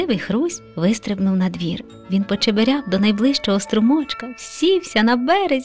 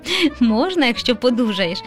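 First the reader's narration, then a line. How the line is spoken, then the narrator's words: Laughing. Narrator (Ukrainian): засміявся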